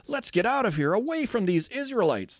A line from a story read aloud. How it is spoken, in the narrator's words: the Egyptians shouted